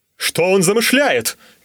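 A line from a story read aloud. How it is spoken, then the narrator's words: Shouting. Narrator (Russian): крикнул Смайк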